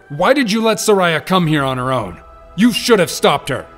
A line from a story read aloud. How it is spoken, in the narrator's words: Navi and Rin were yelling at him